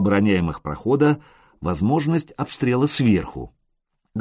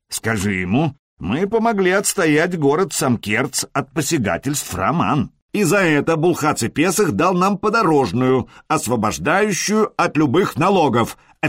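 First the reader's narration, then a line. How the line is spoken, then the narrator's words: Bark. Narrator (Russian): рявкнул Харальд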